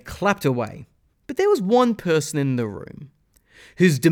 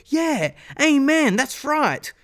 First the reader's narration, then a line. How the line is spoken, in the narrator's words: the enthusiastic young man continued to explain his parable, the young Christian students started to yell